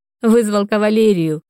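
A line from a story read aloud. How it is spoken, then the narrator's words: Chuckling declaration. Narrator (Russian): хохотнула, заявила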